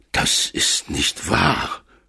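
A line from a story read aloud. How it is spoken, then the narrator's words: Groaning. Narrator (German): stöhnte er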